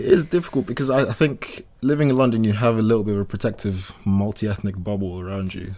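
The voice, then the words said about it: Southern English accent. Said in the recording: “I can hear from your accent that you're not from Manchester ... I'm very southern.”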